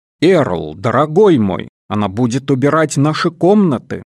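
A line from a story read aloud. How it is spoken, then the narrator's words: Plain. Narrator (Russian): сказала мать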